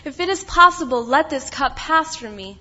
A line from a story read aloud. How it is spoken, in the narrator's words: He cried out to his Father